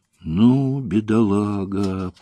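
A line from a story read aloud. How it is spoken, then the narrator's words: Girl drawling. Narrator (Russian): протянула девушка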